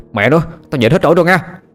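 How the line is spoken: Irritated shout. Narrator (Vietnamese): Thằng Sinh bực mình quát lên

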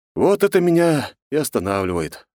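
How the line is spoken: Deep sigh. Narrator (Russian): глубоко вздохнул я, вспомнив размер награды, предложенной за эту лысую голову

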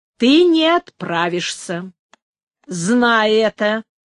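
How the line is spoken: Loud objection. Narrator (Russian): возразил громким голосом Бонифацио

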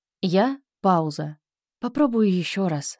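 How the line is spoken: Athlete speaking after deep sigh. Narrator (Russian): сказал спортсмен, глубоко вздохнув

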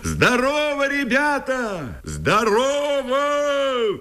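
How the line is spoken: Loud shout through cupped hands. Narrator (Russian): Лубенцов сложил ладони трубкой у рта и громко крикнул

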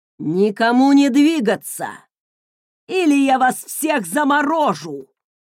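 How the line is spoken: Roaring threat. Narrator (Russian): взревел Люсьен

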